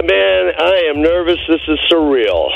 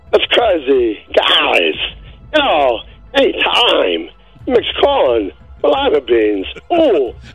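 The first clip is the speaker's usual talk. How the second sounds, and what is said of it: Imitates another person's voice. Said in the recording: “do an impression of Christopher Walken.”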